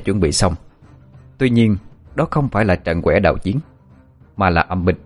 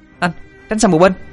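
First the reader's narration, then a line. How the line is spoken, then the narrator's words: Shout. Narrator (Vietnamese): tiếng hét lên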